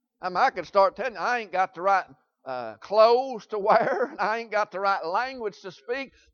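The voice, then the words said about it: Southern American accent. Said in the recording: “I talk plain Southern language... you got an accent”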